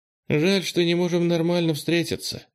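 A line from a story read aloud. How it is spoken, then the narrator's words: Sigh. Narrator (Russian): вздохнула Ира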